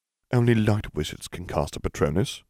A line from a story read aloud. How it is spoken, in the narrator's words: Smith muttered